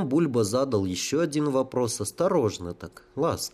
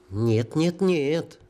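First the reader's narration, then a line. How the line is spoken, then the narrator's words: Whimpering. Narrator (Russian): заскулил тютя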